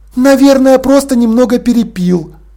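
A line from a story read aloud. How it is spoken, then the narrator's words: Loud female reply. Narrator (Russian): громко ответила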